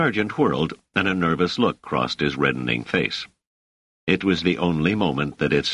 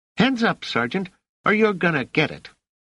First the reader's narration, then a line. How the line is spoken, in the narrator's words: shouting